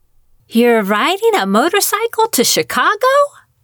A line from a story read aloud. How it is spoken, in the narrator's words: Sheila asked, her voice rising half an octave